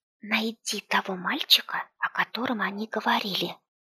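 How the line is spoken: Whisper. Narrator (Russian): произнесла Оленька шепотом

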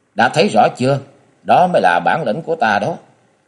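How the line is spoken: Cold question. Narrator (Vietnamese): Địch Tuân lạnh lùng hỏi

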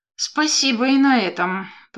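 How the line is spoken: Grumbled. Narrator (Russian): проворчала

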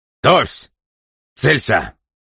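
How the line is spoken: Barked command. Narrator (Russian): гаркнул

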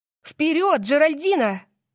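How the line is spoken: Shouted. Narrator (Russian): закричала я

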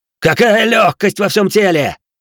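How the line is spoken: Loud laughter. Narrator (Russian): захохотал молодой самурай

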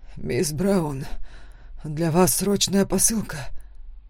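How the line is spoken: Hoarse. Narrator (Russian): хрипло сказал он

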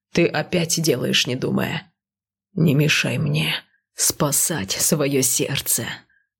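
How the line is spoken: Hissing growl. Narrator (Russian): шипящими нотками прорычал супруг

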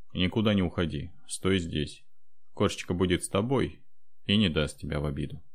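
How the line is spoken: Stern. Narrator (Russian): сказал строго

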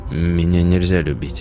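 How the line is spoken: Quiet but clear. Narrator (Russian): тихо, но отчетливо ответил Тарас

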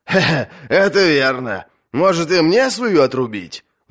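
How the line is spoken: Laughing. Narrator (Russian): засмеялся Давен

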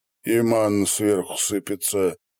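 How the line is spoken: Gloomy. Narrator (Russian): мрачно добавил Иван Разин

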